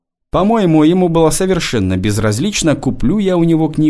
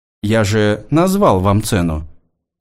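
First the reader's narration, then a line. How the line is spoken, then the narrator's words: Calm. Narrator (Russian): спокойно ответил он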